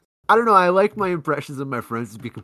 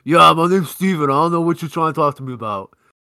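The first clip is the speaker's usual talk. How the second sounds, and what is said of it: Caricatured impression of a friend. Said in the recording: “my impression of him ... completely off base ... more of a caricature”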